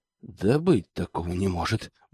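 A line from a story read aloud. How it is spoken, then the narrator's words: Grumble. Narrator (Russian): буркнул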